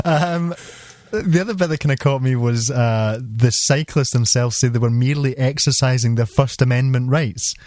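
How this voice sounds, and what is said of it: Non-American accent. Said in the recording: “as you can tell by my accent, not a citizen of the United States”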